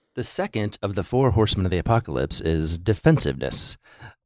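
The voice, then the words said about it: Deep announcer-style radio voice. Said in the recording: “That's my radio voice.”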